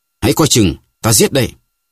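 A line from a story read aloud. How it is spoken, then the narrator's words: Shouting. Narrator (Vietnamese): D'Artagnan hét lên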